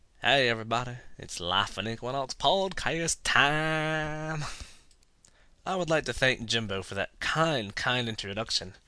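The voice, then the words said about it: Bad put-on Southern accent. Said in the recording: “my horrible southern accent”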